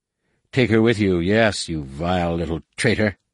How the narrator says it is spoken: he spat at Jason

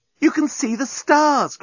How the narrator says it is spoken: cried Nettie

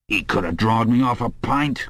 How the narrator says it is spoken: grumbled the old man

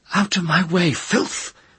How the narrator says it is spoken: Serret cried, and spoke in the sibilant Oscillian speech

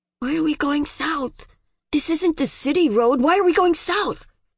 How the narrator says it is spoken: the one next to him, a boy of 18 or so, said in a ragged whisper

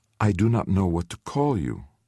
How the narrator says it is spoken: he said very gently

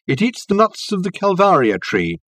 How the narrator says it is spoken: called out Reg to Richard

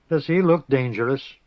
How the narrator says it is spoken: Arha scoffed

